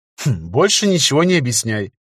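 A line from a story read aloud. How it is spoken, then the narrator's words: Smirking snort. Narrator (Russian): хмыкнул магистр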